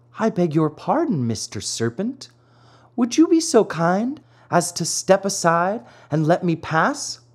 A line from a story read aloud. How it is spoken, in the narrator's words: trying to feel very brave, said in a sweet, soothing voice